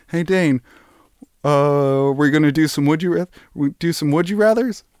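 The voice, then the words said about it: Imitates another person's voice. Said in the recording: “Because that's what he sounds like. I do a great Jimmy impression.”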